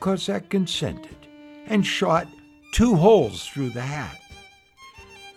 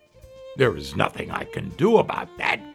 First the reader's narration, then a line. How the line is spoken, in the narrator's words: growled the Cossack